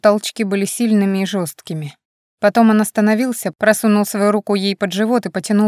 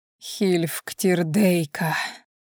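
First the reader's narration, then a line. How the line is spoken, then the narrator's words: Lustful moaning whisper. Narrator (Russian): он сладострастно застонал, прошептав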